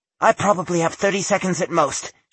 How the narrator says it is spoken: she said quickly and with, she hoped, admirable calm

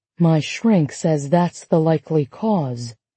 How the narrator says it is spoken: Margaret lowered her voice

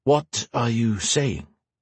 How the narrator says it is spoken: Gray said slowly

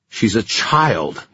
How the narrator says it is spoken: he snarled

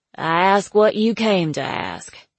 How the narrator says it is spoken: she said, in her flat, phlegmy voice

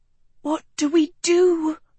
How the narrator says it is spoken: Sophie breathed

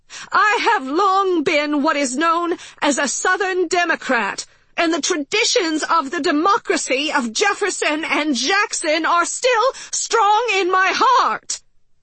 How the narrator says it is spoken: she yelled

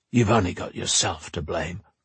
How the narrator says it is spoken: muttered

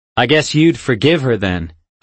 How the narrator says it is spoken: I blurted out

